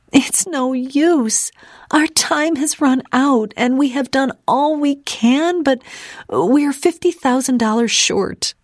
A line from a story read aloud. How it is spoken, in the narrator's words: she sobbed